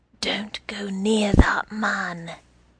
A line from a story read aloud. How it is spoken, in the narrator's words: said softly in my ear